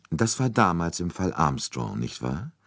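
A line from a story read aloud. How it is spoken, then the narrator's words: Calm. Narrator (German): sagte Poirot ruhig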